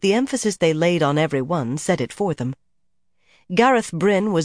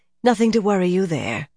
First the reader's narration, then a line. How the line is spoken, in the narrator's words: Shiryam said soothingly